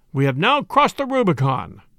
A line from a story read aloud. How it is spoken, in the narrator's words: cried